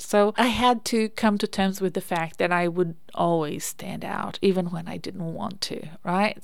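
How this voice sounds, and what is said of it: Speaks with a noticeable accent. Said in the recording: “I have an accent. Like, I open my mouth, I have an accent.”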